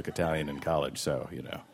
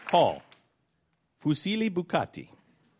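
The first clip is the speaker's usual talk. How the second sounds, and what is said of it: Rich Italian accent. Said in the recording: “my rich accent ... Your Italian accent is phenomenal”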